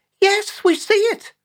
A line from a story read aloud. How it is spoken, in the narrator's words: the pensioners chorused back happily like carefree five-year-olds